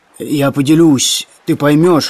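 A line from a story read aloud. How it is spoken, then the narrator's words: Hoarse shout. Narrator (Russian): хрипло закричал Иван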